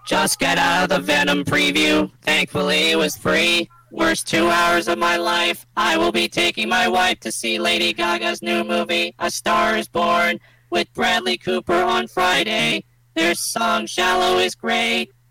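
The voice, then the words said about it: Robot voice. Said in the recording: “read that in your robot voice”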